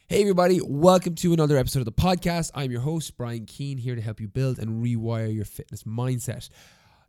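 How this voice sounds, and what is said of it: Congested, sick-sounding voice. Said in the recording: “I sound totally different on today's episode. You can probably tell from my voice. I've got a cold. ... this doesn't sound like my normal voice”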